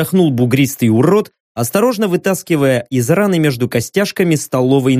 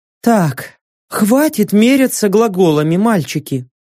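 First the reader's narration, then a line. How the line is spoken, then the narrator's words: Sighing. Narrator (Russian): вздохнула Теулра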